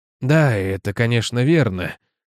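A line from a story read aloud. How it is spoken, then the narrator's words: Dull mumble. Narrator (Russian): тупо пробормотал Ленниген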